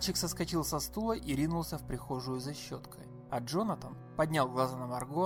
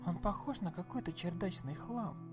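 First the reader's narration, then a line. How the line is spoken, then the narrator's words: Secretive whisper. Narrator (Russian): проговорила Марго шепотом, чтобы Калеб не услышал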